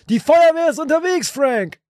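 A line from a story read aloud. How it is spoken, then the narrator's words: Shouted. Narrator (German): Winston schrie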